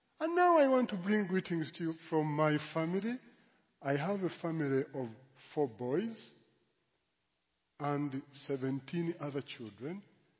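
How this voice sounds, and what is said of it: English with a foreign accent. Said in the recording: “preaching in this church in this very accent ... an exposure of another accent”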